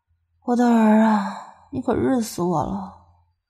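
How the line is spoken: Breathy murmur. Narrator (Chinese): 口中吐着气儿，喃喃道

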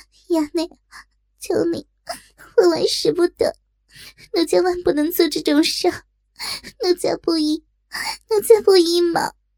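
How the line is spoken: Anxious crying. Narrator (Chinese): 急哭道

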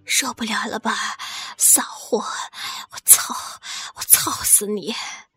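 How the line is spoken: Low, crude. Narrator (Chinese): 何健低声的说道

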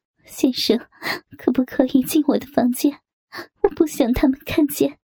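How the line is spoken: Wailing, pleading. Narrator (Chinese): 蔡娟悲鸣哀求

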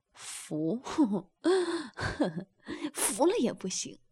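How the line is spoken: Laughing. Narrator (Chinese): 男的笑道

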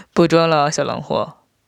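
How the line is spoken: Sly chuckle. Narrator (Chinese): 我嘿嘿笑道

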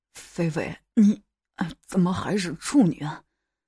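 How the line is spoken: Panting question. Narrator (Chinese): 带着粗重的喘息，问了缘由

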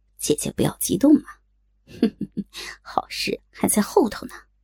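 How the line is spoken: Snickering. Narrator (Chinese): 慕容残花嘿嘿笑道

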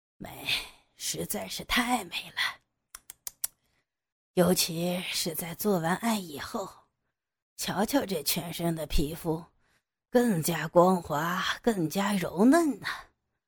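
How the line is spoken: Murmuring to himself. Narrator (Chinese): 他喃喃自语着

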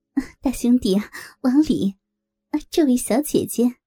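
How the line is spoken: Hurried cheerful greeting. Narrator (Chinese): 我赶忙笑着

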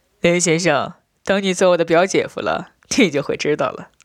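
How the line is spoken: Laughing. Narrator (Chinese): 我笑道

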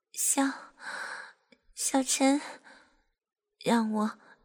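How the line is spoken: Breathless, flushed. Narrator (Chinese): 小蔡脸泛红晕，喘息的对陈景晨说

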